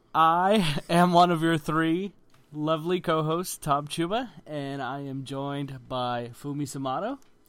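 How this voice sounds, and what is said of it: Sick-sounding voice. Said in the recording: “as you can probably tell from my voice, I am incredibly sick because I'm so damn run down”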